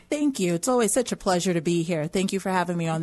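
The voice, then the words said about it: New York accent. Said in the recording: “your New York accent.”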